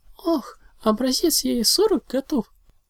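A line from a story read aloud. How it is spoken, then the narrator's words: Joyful exclamation. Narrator (Russian): Радостно воскликнула единорожка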